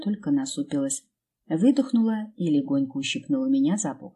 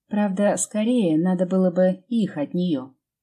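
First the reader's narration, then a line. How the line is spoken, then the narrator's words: Teasing. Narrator (Russian): поддел Лену, хмыкнув про себя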